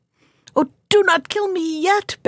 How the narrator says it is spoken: begged the fish

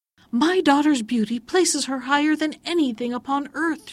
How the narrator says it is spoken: she cried

